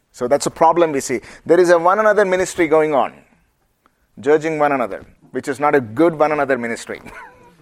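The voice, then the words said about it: Indian accent. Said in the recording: “Is my Indian accent okay?”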